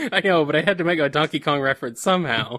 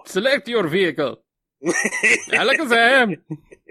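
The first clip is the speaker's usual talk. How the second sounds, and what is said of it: Taj character accent from Diddy Kong Racing. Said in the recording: “we're doing accent this show ... Taj's voice”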